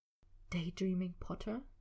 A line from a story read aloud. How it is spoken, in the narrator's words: Draco whispered, leaning in close, his words sharp